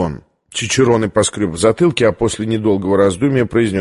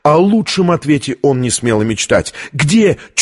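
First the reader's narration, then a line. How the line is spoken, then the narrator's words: Almost shouting. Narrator (Russian): чуть не выкрикнула Витория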